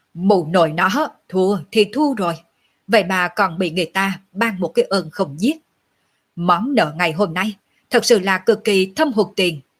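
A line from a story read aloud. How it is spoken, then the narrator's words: Loud laughing. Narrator (Vietnamese): Lệ Hồn Đồ cười to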